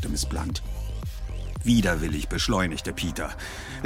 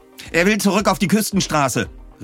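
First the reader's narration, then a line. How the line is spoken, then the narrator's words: Calling out. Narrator (German): rief Miss Blunt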